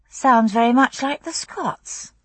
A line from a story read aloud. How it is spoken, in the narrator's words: I murmured to Jamie